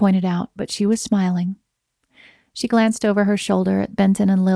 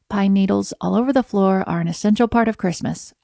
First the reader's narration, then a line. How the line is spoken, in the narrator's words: Alex said